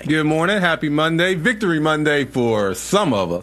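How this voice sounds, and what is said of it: Happy, upbeat voice. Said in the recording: “Why you sound so happy?”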